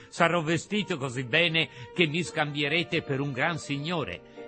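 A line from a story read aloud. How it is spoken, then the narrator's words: Laughing. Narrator (Italian): soggiunse ridendo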